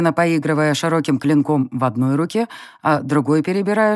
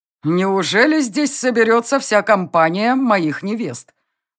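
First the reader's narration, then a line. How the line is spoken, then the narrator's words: Loud smirking prince. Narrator (Russian): Усмехнувшись, громко произнес принц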